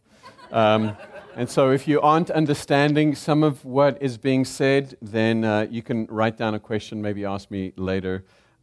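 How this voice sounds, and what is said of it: South African accent. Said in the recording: “I am Zimbabwean by birth. I am South African by accent.”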